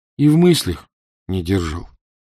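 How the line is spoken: Soft, gentle voice. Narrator (Russian): мягко сказал вице-консул

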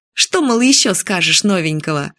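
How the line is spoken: Laughing. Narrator (Russian): Юля засмеялась

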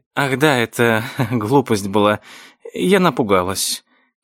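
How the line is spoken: Uncertain, hesitant. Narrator (Russian): произнесла неуверенно мисс Фолли

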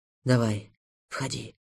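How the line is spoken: Whisper. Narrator (Russian): прошептал Морозов

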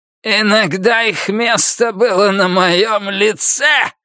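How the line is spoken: Angry outburst. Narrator (Russian): злобно выкрикнул он, словно она в чем-то с ним не согласилась

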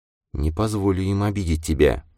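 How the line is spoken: Tender whisper. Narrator (Russian): прошептала она своему мальчику

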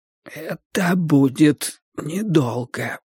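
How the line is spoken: Hoarse reply. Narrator (Russian): прозвучал сиплый ответ Вудварда

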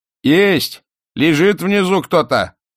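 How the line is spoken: Shouting from afar. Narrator (Russian): закричали с середины двора

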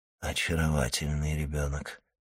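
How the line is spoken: Whisper. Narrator (Russian): прошептал Монте-Кристо

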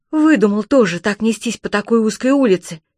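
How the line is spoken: Angry blurt. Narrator (Russian): сердито выпалила Чермейн

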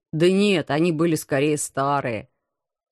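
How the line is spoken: Embarrassed mutter. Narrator (Russian): Смущенно пробормотал командор

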